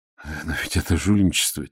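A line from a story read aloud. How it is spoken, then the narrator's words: Quiet. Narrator (Russian): тихо сказал я Аметистову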